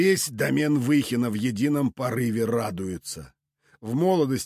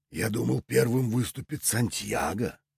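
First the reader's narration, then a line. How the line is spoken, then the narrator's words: Whisper. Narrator (Russian): прошептал мастер войны Делаэрт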